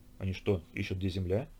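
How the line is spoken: Muttered. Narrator (Russian): пробормотал Василий

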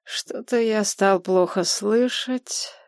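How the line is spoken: Lazy drawl. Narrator (Russian): лениво протянул циклоп

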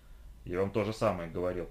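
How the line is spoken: Gruff mutter. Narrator (Russian): буркнул Флинт

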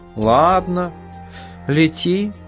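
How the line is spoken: Sighing. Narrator (Russian): вздохнул кот

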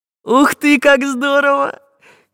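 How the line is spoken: Delighted squeal. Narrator (Russian): завизжал Чижик

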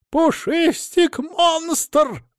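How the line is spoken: Shrill squeal. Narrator (Russian): взвизгнул Адамыч

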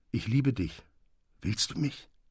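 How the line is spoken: Soft low voice. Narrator (German): sagte er mit leiser Stimme

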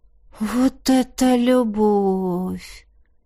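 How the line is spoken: Drawling. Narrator (Russian): протянул кто-то из адептов

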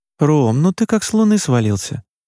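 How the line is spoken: Tired. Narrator (Russian): устало произнесла Маша

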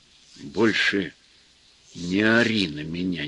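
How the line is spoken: Quiet. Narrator (Russian): негромко сказал Федор

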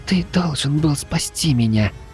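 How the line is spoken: Tearful child whispering in ear. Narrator (Russian): едва сдерживая слезы, прошептала малышка мне на ухо

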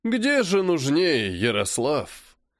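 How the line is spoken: Theatrical dying wheeze, phone. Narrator (Russian): Артистично прохрипел он в трубку, как будто был на последнем издыхании

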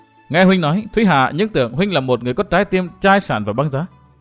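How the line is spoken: Soft gentle woman. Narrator (Vietnamese): Công Tôn Thúy Hà dựa đầu vào vai Kinh Hồng, nàng nhỏ nhẹ nói

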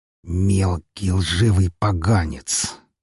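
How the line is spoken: Slow venomous hiss. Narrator (Russian): медленно, словно сплевывая яд, прошипел он

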